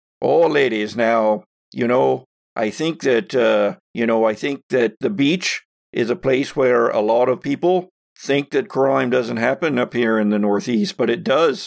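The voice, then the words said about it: Put-on accent. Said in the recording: “my accent is. Hold on. ... You've been trying different accents for the past year, and they all sound better than the last.”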